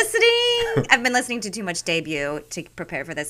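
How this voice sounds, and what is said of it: Usual voice. Nothing is said of it.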